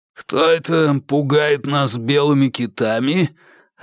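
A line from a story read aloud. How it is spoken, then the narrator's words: Hoarse voice from doorway. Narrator (Russian): раздался от входа хриплый голос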